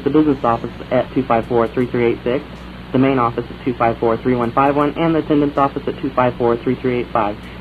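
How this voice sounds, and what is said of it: Mock corporate answering machine voice. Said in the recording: “me impersonating a major corporation”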